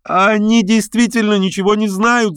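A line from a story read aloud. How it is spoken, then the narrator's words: Woman shouting. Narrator (Russian): закричала женщина в полумаске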